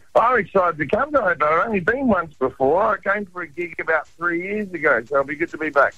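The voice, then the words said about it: Australian accent. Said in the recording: “You got an Aussie accent. You kept it.”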